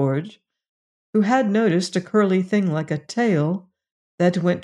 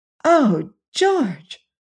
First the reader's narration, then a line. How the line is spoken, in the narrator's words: cried Jane